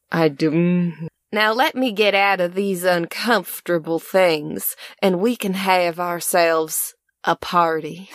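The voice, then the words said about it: Put-on Appalachian accent. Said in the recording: “Can I do the Paige voice? ... Can you do an Appalachian voice?”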